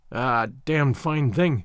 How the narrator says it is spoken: he muttered

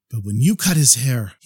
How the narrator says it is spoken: he sighed a sigh of relief

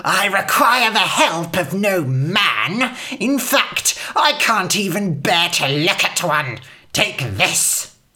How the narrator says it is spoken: The old woman hissed

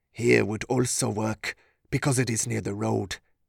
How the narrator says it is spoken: he muttered under his breath in his native language

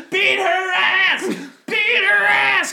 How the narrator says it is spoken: started screaming

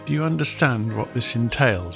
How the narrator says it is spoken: she asked quietly

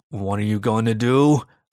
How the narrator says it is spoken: I growled

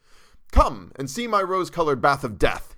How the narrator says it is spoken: he cried

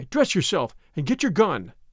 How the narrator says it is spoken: cried I

